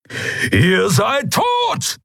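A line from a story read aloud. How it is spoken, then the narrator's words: Thundering. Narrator (German): donnerte Keru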